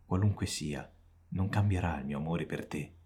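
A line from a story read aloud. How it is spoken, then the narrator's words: Woman speaking tenderly. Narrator (Italian): dice la donna dolcemente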